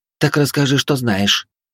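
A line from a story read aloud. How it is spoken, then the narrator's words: Surprisingly soft suggestion. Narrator (Russian): на удивление мягко предложила Хильда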